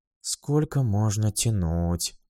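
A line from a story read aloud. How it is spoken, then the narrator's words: Grumbling. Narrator (Russian): пробурчала она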